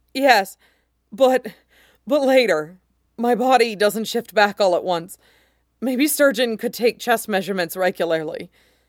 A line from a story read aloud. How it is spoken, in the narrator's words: Kit groaned at the pounding pleasure and groaned out